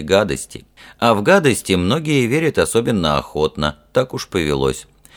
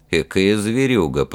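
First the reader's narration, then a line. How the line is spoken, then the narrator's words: Wary grumble. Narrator (Russian): проворчал Александр опасливо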